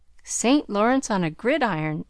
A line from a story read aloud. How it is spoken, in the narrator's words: added Laurie, blandly finishing the sentence